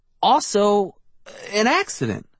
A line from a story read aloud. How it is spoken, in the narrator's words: I stammered